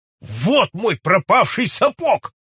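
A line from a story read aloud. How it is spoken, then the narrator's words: Shouted. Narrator (Russian): крикнул сэр Генри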